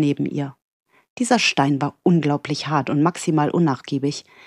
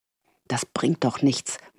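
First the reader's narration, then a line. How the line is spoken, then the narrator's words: Frustrated murmur. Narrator (German): murmelte sie frustriert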